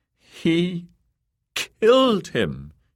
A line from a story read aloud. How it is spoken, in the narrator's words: she said in a quavery voice